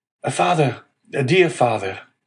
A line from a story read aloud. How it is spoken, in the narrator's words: a well-known voice behind him exclaimed